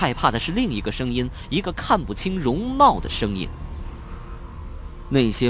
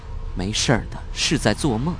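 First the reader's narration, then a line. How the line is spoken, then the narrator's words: Mumbling in sleep. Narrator (Chinese): 即使在梦中，秦月依然在喃喃自语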